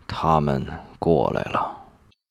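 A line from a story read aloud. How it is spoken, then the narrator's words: Deep grave voice. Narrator (Chinese): 吴业沉声道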